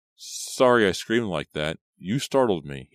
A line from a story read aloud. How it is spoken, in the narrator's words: he stammered